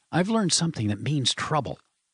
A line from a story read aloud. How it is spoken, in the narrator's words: said Chuck urgently